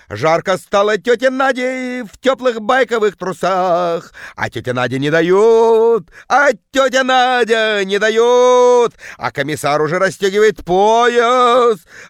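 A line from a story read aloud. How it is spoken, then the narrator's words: Bellowing in deep bass. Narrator (Russian): орала тетка жутким басом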